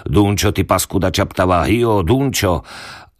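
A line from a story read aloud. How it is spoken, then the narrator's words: Shouting in thunderous voice. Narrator (Slovak): Neznámy cestovateľ hromovým hlasom vykrikoval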